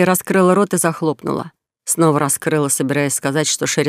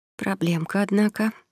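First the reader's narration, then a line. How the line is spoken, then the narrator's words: Whispered. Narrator (Russian): прошептала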